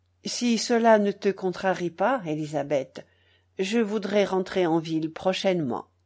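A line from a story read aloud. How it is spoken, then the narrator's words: Restrained, low but firm. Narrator (French): elle lui dit, d'une voix contenue, basse mais ferme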